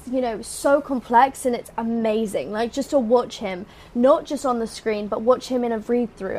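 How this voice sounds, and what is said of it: British accent. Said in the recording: “we hear the accent ... No one talks like that in Orlando ... I got my British accent there”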